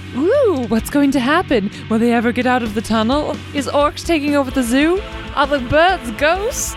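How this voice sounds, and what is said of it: Playful put-on accent. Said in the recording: “Am I talking in an accent now because it's just fun”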